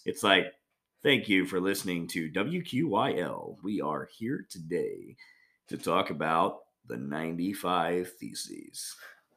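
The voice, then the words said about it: Smoky radio announcer voice. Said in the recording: “I have like this very radio voice ... You have that kind of cigarette like, smoking radio ... voice.”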